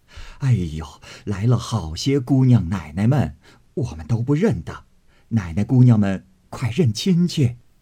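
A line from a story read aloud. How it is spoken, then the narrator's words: Laughing, cheerful. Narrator (Chinese): 几个小丫头并老婆子都笑道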